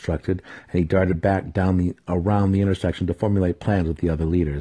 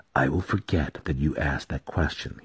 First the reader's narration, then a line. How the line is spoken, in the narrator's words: he whispered